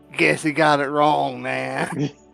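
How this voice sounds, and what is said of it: Put-on Wookiee-like California accent. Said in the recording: “in a Wookiee California accent”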